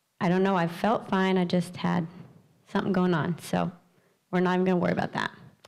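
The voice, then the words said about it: Rough, sketchy voice from laryngitis. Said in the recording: “my voice is a little sketchy ... I've been dealing with some laryngitis”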